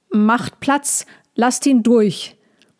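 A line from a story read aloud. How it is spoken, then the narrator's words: Repeated calling out. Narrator (German): Molchi rief immer wieder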